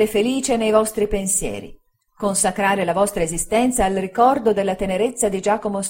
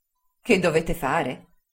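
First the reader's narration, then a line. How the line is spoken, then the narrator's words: Plain. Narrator (Italian): rispose l'altra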